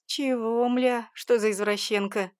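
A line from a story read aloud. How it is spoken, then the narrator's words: Snort. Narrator (Russian): Хмыкнул он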